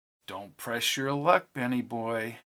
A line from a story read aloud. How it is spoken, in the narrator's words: she whispered in Ben's ear